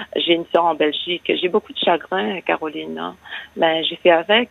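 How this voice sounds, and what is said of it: Slight Mauritian accent in French. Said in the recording (French): “moi, je suis pas française... j'ai un petit accent derrière... Je suis d'origine mauricienne.”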